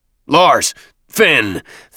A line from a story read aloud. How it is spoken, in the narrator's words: Thune bellowed